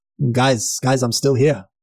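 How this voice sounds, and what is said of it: Australian accent. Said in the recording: “in an Australian accent”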